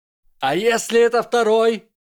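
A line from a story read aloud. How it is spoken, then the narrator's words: Shouted. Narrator (Russian): крикнула Амелия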